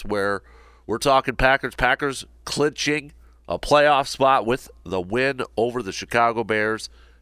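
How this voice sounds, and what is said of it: Hoarse, fading voice from a cold. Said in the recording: “it sounds a little different, losing my voice... dealing with a little bit of a cold... a change in voice”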